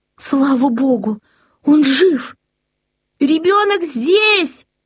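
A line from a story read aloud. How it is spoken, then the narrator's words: Shouted. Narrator (Russian): крикнула она мужу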